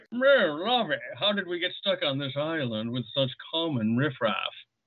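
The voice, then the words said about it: Thurston Howell III impression. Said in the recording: “Thurston Howell III”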